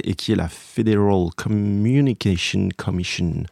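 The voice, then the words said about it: Mediocre put-on English accent. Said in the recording (French): “mon accent anglais ? ... il est pas ouf.”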